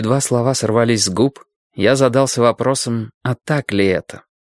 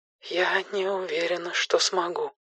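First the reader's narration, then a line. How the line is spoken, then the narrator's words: Barely audible. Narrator (Russian): она говорила так тихо, что мне пришлось напрягать слух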